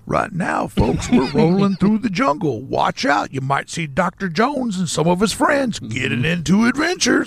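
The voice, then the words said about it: Theme park ride narrator voice. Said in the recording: “Like, hey, the narrator,”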